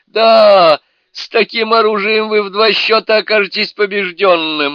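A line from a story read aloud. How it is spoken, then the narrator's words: Laughing. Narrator (Russian): рассмеялся государь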